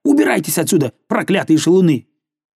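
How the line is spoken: Angry shouting. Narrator (Russian): она напустилась на них, сердито крича

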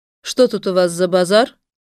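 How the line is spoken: Stern question. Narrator (Russian): строго спросил фараон

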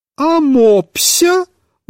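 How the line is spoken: Irritated shout. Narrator (Russian): выкрикнула Марья Петровна с раздражением

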